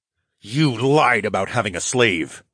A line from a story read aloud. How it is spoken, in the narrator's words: I snarled